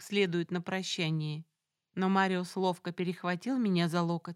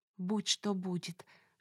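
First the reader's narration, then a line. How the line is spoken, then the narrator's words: Whispered to herself. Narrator (Russian): шепнула скорее самой себе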